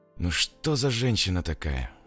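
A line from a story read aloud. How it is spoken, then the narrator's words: Sighing. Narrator (Russian): вздохнул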